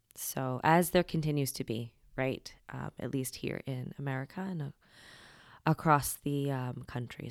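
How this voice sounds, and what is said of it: Voice sounds a little weird. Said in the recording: “my voice is a little weird today. The allergies are doing its fuckery”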